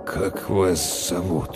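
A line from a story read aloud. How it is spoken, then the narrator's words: Uncertain question. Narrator (Russian): неуверенно спросил Толт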